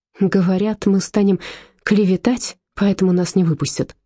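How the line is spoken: Gloomy telling. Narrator (Russian): уныло поведал Дагмар

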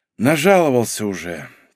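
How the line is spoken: Heavy sigh. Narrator (Russian): тяжело вздохнула Ольга

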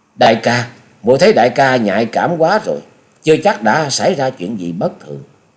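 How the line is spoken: Smiling. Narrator (Vietnamese): Chung Nhật Tự mỉm cười nói

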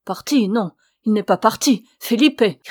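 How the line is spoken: Shouting. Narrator (French): cria Ramona

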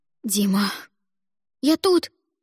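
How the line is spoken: Frightened squeak. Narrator (Russian): испуганно пискнул Димка

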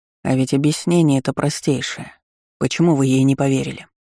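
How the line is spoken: Even-toned question. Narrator (Russian): Ровным тоном поинтересовался герцог у судьи

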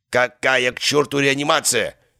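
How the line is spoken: Growled. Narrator (Russian): рыкнул Герасимов

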